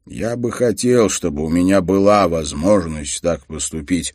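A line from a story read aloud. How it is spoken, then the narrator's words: Plain. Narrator (Russian): ответил Харри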